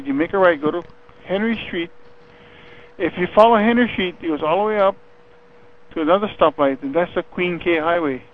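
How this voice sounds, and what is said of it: Thick, almost Hawaiian-sounding accent. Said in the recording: “you have a very thick, sounds almost Hawaiian accent”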